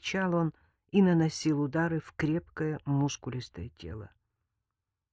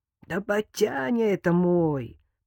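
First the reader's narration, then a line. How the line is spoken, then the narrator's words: Hoarse young man. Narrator (Russian): прохрипел парень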